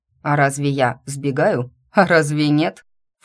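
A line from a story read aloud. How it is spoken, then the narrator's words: Snorting. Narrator (Russian): фыркнул Дер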